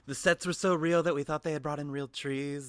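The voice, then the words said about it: Imitates another person's voice. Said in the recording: “good Anna Kendrick impression”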